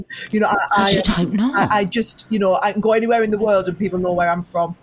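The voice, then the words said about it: Northeast English accent. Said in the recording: “I was always the girl that sounded like this. And do you know, I'm Northern and proud, so I have never even tried to lose this accent, put a posh telephone voice on ... I was from the Northeast”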